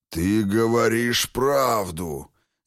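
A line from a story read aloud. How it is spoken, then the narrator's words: Reluctant growl, ghost. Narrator (Russian): нехотя рыкнул бокоголовый призрак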